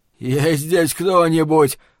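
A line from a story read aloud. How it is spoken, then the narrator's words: Wheezing. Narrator (Russian): прохрипел мусорный бак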